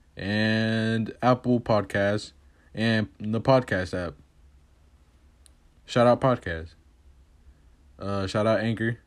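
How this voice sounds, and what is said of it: Strained, hoarse voice from screaming. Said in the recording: “I'm just screaming, so my voice is kind of fucked up”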